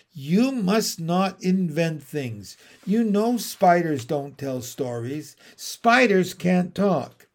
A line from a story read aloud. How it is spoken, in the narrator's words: said her mother sternly